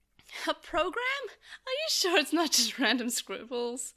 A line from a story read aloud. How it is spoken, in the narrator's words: Mimi said, laughing